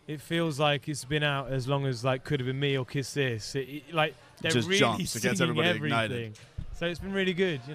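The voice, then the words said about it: British accent. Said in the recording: “you have a British accent ... how classy you all sound ... so much more cultured and eloquent”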